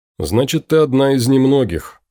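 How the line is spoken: Wry snort. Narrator (Russian): хмыкнул Том

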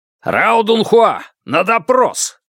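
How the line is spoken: Guard barking. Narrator (Russian): рявкнул один охранник

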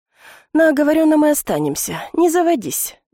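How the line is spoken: Sighing. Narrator (Russian): вздохнула я

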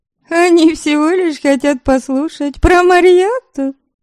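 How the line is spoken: Laughing explanation. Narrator (Russian): смеясь, пояснила Нуоритар

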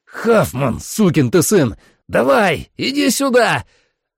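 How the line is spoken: Yelling. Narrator (Russian): Орал я

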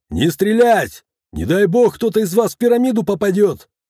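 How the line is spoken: Soldier shouting. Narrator (Russian): заорал один из военных

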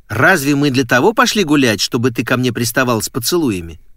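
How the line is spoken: Sharp question. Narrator (Russian): резко спросила она

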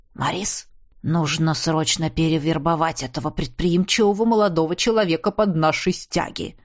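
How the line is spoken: Loud whisper. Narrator (Russian): громким шепотом сообщил Эдиар VI

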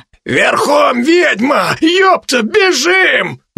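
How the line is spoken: Brash shout. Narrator (Russian): самый наглый из них крикнул

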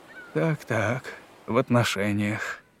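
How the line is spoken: Absent-minded mumble. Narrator (Russian): рассеянно пробормотал собеседник

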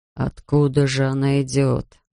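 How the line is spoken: Muttering. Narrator (Russian): бормотал Бирн

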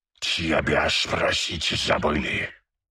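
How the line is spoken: Hissed. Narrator (Russian): прошипел главарь

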